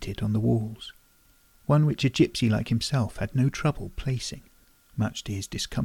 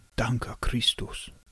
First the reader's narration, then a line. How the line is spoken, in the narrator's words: he muttered